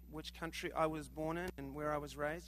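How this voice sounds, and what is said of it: New Zealand accent. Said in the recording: “I sound funny, huh? ... This accent? ... New Zealand.”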